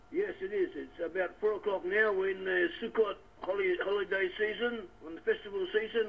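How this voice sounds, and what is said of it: Australian accent. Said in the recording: “your accent sounds Australian ... I still have my accent”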